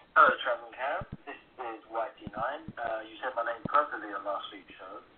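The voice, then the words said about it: West London accent. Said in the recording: “As you can tell from my accent, I'm living out of West London.”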